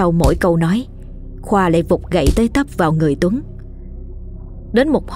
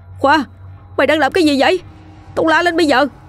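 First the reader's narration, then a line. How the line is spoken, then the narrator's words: Terrified shriek. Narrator (Vietnamese): Quá bất ngờ và kinh hãi với những gì vừa chứng kiến, Chiến rú lên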